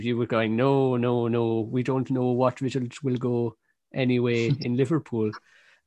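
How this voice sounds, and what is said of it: Put-on accent. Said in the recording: “What was that accent?”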